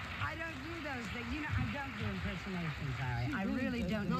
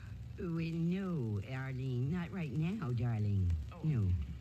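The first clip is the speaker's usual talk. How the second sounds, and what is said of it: Imitates another person's voice. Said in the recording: “It's a pretty good imitation of...”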